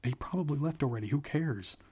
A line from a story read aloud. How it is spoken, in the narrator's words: Marla said, her voice high and frightened